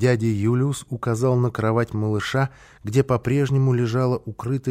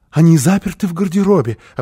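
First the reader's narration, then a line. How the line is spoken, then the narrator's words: Frightened, joyful laughter. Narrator (Russian): объяснила Фрёкинбок и засмеялась испуганно и радостно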